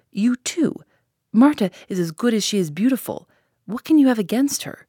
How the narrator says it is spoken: cried the boy

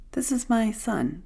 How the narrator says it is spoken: the woman said calmly

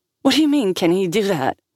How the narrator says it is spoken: Sal snapped, giving in to the childish lure of picking at Liam

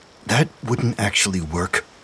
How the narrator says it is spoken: Dumont muttered

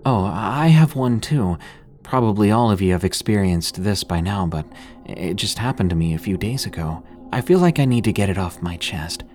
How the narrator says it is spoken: said in a sheepish voice

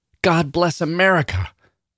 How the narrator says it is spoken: one of them hollered

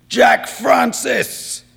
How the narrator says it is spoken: Valenti bellowed

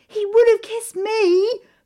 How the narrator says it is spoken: Berenice shouts at Amara

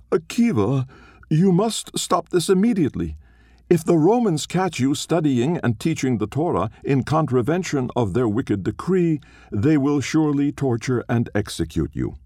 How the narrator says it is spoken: Being afraid, it cried out

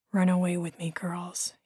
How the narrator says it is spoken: he whispered

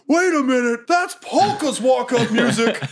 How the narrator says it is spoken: the famous goblin promoter, Paul Heyman, yelling

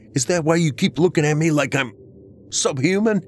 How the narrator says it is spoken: I shouted at her

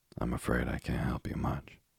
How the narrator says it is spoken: so respectfully that she was mollified, and rejoined with a sigh

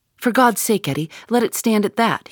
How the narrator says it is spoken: he cried

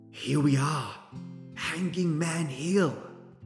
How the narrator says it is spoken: he whispered

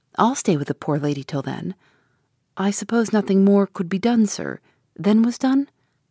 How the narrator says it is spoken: says I

